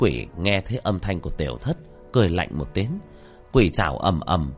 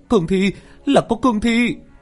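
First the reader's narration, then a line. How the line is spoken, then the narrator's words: Shrill scream. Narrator (Vietnamese): tiếng hét chói tai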